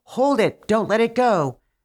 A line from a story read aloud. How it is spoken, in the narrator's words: the prince shouted to his shepherd's dogs